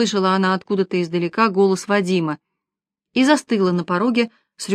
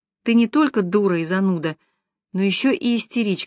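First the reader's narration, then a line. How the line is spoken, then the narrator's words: Said to herself. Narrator (Russian): сказала она себе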